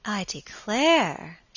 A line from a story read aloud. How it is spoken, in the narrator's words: she exclaimed